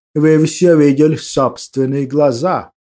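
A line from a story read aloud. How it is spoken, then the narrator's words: Trained aristocratic voice. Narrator (Russian): произнес я хорошо поставленным аристократическим голосом Удо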